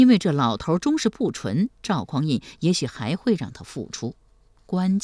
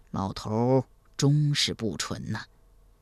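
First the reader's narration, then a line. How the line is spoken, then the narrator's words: Soft sigh. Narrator (Chinese): 赵匡胤轻声叹道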